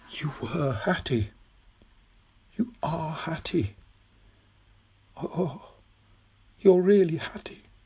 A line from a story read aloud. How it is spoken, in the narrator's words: Tom suddenly leaned forward and whispered